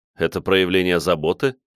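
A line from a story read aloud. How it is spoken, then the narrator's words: Wry snort. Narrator (Russian): хмыкнул я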